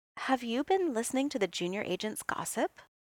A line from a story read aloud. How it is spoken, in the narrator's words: she said, her voice gentle